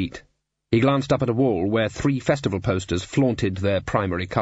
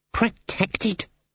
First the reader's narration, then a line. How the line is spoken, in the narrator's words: muttered Cleet